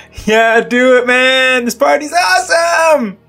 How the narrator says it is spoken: shout out

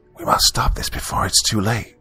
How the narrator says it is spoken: she whispered over her shoulder

